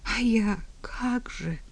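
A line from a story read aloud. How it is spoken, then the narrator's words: Pleading. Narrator (Russian): взмолилась Елена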